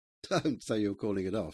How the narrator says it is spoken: she laughed

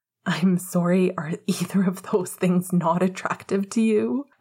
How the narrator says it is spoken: Remus laughed

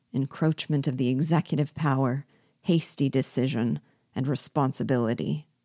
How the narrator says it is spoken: The two deputies of rival assemblies murmured the words

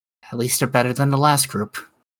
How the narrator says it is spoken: he just gives a big sigh and just goes

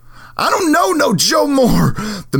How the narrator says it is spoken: the man screamed defiantly

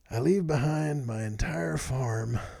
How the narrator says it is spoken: Wolfert began faintly

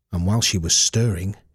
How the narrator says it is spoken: she muttered a spell

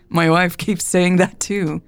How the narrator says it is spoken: Sergio laughed

